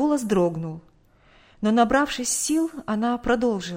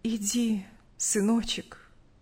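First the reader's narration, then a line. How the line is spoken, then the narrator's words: Calm reply. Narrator (Russian): спокойно ответила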